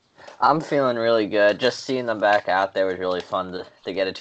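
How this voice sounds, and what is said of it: New York accent. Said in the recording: “You can tell from his accent that he is from New York.”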